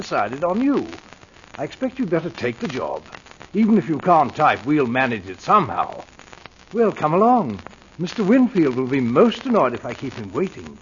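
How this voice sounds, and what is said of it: English accent. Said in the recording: “the butler with the English accent”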